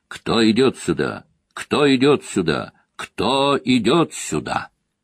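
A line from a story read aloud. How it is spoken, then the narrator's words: Loud shout into silence. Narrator (Russian): трижды громко стукнул о широкие плиты жезлом, выкрикнув в тишину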